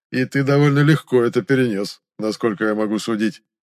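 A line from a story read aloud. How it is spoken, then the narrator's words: Carefree chuckle. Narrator (Russian): беззаботно хохотнул Ваэрис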